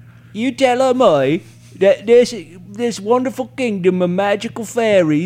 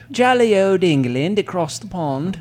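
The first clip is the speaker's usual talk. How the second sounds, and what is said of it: Put-on English accent. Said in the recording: “That's an amazing accent.”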